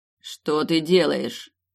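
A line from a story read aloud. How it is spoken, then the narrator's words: Cold, commanding question. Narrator (Russian): холодно спросил король таким голосом, что мне захотелось встать и отчитаться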